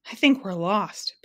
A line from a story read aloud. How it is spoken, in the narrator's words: panted the humbug, collapsing into a large berry bush